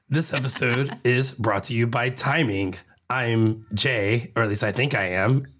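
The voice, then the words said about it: Gravelly, rough voice. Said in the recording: “in the gravel, or at least my voice is ... much clearer voiced”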